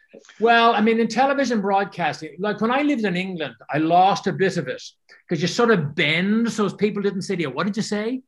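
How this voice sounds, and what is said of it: Irish accent. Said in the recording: “Talking about Ireland, I'm really impressed. You haven't lost your accent at all.”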